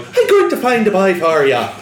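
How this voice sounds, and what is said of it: Deliberately bad Irish accent. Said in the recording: “The worst Irish accent I've ever heard.”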